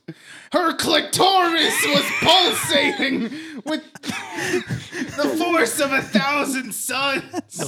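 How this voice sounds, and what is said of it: Imitates another person's voice. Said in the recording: “That's Gilbert Gottfried.”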